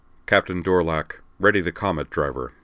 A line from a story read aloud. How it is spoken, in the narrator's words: he said in a hard voice